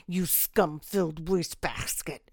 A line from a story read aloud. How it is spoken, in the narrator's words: she spat